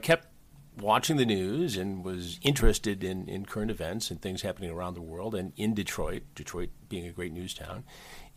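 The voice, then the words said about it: Polished broadcaster radio voice. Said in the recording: “You have a radio voice. Like, you've got that great voice.”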